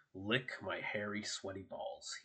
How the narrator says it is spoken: he snarled

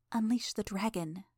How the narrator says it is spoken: Imp whispered

